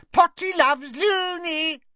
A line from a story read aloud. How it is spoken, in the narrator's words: he zoomed away, cackling and shrieking